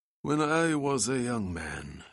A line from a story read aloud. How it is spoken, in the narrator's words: sighed Mihailovich